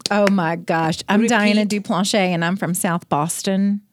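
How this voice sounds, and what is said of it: Boston New York accent. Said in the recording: “That New York accent, it just pours out. That Northeast Boston, New York accent is just pouring out of you right now.”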